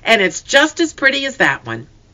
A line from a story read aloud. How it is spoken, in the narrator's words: they cried